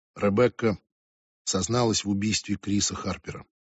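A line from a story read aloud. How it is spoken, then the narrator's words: Said quietly. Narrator (Russian): негромко сказал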